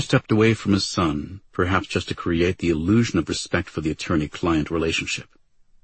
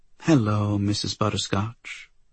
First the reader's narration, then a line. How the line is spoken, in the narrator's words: she said sweetly